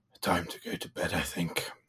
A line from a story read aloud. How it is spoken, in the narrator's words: he mutters to himself